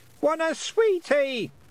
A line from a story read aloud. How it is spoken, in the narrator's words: shouted Wentworth on automatic sweetie pilot